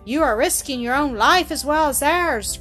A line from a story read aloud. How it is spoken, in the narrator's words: cried one